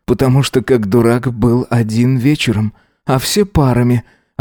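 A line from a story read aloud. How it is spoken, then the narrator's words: Groaning reply. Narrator (Russian): ответил он, застонав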